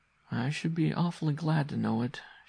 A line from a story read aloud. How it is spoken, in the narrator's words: she said wearily